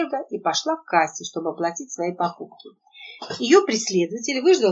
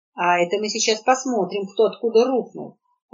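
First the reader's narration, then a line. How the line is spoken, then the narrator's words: Barked, retired man. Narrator (Russian): рявкнул отставник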